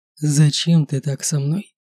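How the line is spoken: Quiet, calm, pained. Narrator (Russian): произнесенного тихо и спокойно, но с такой болью

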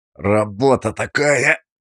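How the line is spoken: Words through gritted teeth. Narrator (Russian): процедил я

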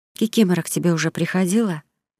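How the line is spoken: Whispering. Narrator (Russian): зашептала она

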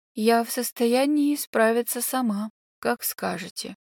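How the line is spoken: Dull muffled voice. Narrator (Russian): глухо уронил

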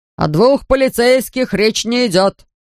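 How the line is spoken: Angry grumble. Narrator (Russian): сердито пробурчал Гун

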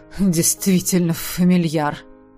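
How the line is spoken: Muttering. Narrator (Russian): пробормотал он

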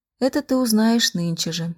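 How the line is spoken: Timid, forced reply. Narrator (Russian): отвечала она как-то робко и принужденно

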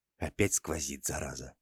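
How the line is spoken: Whispered curse. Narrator (Russian): позволил себе шепотом ругнуться писарь

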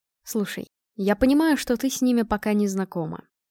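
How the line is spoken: Gentle. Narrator (Russian): мягко начал Женя

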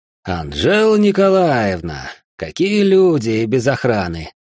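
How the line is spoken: Ominous drawl. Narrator (Russian): Настораживающе протянул он

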